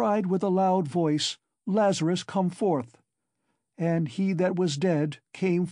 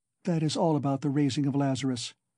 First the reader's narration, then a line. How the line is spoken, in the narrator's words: she whispered severely and abruptly